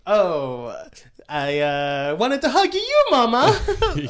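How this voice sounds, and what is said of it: Put-on Italian accent. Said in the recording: “Dorothy now has an Italian accent.”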